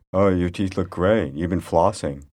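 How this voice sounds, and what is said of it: Hard, deep voice like Scarlett Johansson. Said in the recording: “her voice sounds exactly like ScarJo ... She has that sort of a hard, deep voice. ... That's a pretty good one.”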